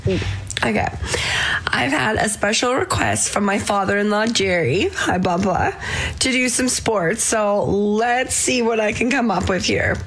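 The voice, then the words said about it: Slightly scratchy, recovering voice. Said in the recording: “My voice is a little bit back to normal, but still a bit scratchy.”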